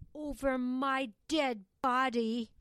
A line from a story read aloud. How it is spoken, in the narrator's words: roared Charlie